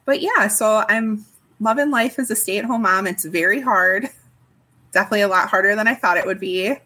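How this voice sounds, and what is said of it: Slight Upper Midwest accent. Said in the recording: “there's a tiny bit of an accent. I'm guessing that you're from like Wisconsin, Minnesota, somewhere up there ... you say a few little sounds that sound very similar to the way that they say it in Wisconsin”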